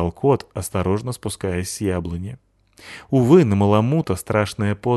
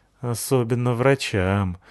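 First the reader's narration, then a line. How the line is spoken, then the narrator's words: Sad boy. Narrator (Russian): сказал грустно мальчик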